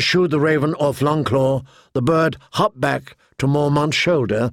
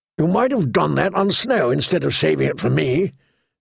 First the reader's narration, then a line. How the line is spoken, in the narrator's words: the old bear grumbled